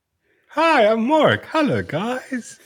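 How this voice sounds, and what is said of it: Childlike, kids'-show presenter voice. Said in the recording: “why he sounds like a child or like Miss Rachel”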